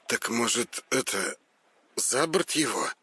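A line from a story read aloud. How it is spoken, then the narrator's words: Uncertain suggestion. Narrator (Russian): Предложил Петр, неуверенно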